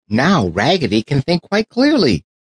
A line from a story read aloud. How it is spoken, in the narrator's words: cried all the dolls